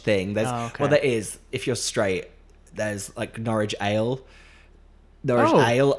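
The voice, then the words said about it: Slips into Norwich accent. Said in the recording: “I said that in an accent then. I'm slipping into it because I'm talking about it.”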